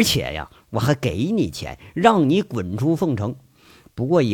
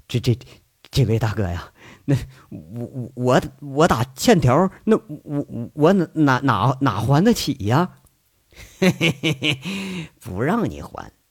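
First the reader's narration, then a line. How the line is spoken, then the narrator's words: Nervous stammering. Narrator (Chinese): 老毛冷汗直冒，结结巴巴说着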